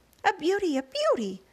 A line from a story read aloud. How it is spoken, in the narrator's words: Aunt Sponge cried out